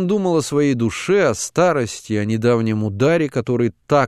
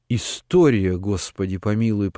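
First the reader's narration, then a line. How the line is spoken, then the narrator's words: Muttered with heavy sighs. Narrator (Russian): пробормотал он, тяжело вздыхая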